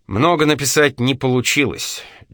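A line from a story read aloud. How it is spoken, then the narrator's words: Sighing speech. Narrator (Russian): вздохнув, сказал Байрон Эдварду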